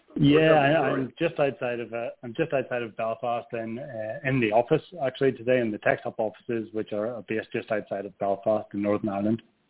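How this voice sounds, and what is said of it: Northern Irish accent. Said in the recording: “I love your accent... it's just so perfect... the Northern Ireland accent”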